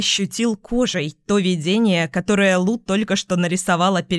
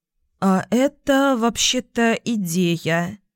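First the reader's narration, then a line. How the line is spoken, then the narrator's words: Uncertain drawl. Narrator (Russian): неуверенно протянула Марта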